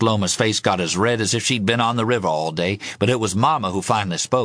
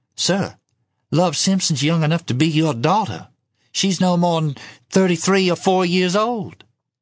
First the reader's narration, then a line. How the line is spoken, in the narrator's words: In a timid voice, she said